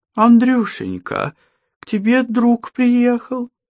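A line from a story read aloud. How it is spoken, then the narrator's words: Joyful squeal. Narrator (Russian): запищала радостно Елизавета Ивановна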